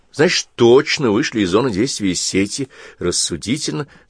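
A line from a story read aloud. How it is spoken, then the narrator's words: Plain. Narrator (Russian): сказала Олеся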